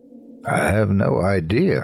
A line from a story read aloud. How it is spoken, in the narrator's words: I said flatly